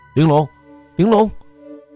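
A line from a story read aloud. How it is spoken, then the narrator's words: Shouting at full voice. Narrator (Chinese): 我放声大叫着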